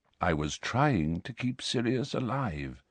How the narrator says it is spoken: said Dumbledore quietly

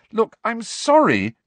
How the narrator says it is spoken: cried Hermione

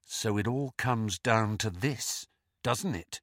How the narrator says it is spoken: whispered Harry

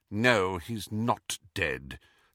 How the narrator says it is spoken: said McGonagall bitterly

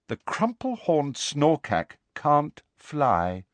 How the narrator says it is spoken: said Luna in a dignified voice

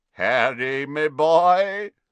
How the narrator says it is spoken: said a booming voice

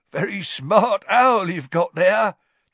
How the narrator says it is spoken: chuckled Tom

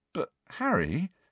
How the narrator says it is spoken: said Ron weakly

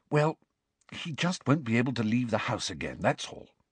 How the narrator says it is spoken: she whispered

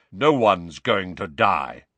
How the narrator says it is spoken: said Kingsley Shacklebolt in his deep, calming voice

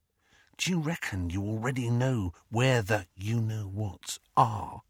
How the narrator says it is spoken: he dropped his voice to a whisper

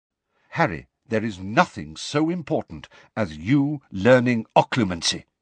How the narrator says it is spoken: said Lupin sternly

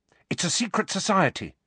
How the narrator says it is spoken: said Hermione quickly

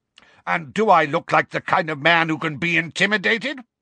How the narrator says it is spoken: barked Uncle Vernon

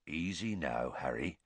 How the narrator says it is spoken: said Hagrid quietly

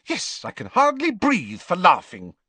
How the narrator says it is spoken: snapped Hermione

